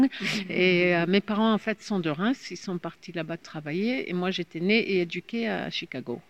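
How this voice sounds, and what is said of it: Slight American English accent in French. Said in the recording (French): “je suis née à Chicago, donc ma langue, ma première langue c'est l'anglais, donc mon petit accent”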